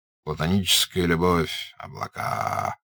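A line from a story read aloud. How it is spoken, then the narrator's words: Mumbled. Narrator (Russian): пробормотал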